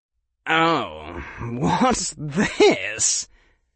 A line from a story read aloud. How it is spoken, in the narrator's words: Draco said in a drawl rich with malice